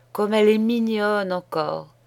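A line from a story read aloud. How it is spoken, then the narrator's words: Sighing innkeeper. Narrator (French): disait en soupirant l'aubergiste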